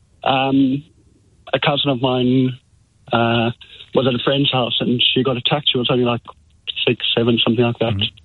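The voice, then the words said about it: South African accent. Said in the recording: “obviously I'm from South Africa, and I don't know if you can tell by my accent.”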